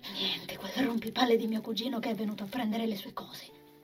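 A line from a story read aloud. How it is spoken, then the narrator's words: Whispered. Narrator (Italian): bisbigliò di nuovo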